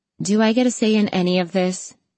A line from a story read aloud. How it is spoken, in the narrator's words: Maria asked dryly